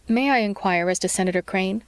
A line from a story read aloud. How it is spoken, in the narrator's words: Bright asked